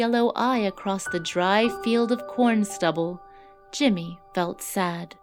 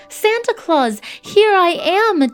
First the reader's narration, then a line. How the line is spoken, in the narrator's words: Jimmy cried out